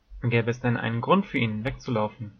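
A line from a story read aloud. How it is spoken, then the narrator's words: Plain question. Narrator (German): fragte Kyra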